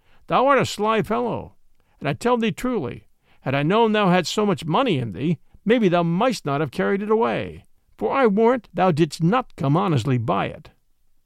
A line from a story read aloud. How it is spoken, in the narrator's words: quoth Robin, laughing